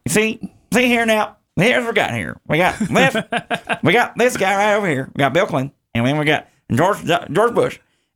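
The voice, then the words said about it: Imitates another person's voice. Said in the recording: “as good as his George W. Bush was, or George H.W. Bush was, his Ross Perot ... His Ross Perot. Bam.”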